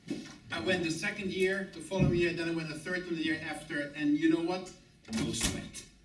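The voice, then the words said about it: Noticeable foreign accent. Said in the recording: “I had an even heavier accent than I have today”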